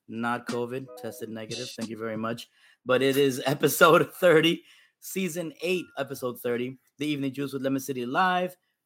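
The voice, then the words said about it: Hoarse voice. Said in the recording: “my voice is a little hoarse today. I'm a little under the weather.”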